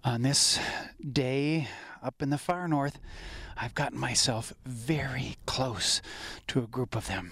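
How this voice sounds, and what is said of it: Speaking very softly, hushed. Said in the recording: “that's why I'm talking so softly right now”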